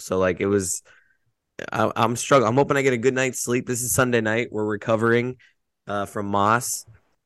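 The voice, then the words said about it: Hoarse, strained voice from screaming. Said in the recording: “as you can hear in my voice, I screamed a lot last night”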